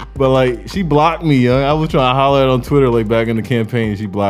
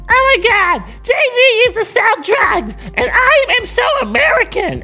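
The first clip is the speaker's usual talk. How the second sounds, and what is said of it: Bad imitation of a woman's voice. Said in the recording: “That was a really bad impersonation of her.”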